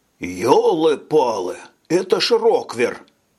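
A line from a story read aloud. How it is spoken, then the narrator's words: Excited exclamation. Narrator (Russian): воскликнул Григор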